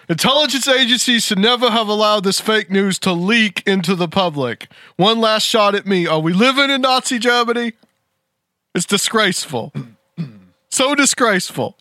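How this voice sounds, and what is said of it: Imitates another person's voice. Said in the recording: “do my Trump voice”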